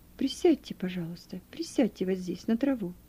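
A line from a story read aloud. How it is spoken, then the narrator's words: Plain. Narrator (Russian): сказал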